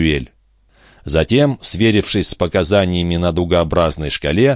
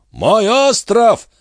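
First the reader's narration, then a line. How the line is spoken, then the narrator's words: Shouting, old man. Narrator (Russian): закричал дядюшка Антифер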